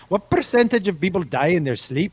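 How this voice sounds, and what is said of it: Put-on Irish accent, Scottish-sounding. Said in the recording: “That might be the best accent... Best Irish accent ever... the first one sounded almost like Scotland, which is in the ballpark of Ireland”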